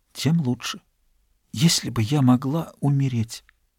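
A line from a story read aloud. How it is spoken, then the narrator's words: Whisper. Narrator (Russian): Она прошептала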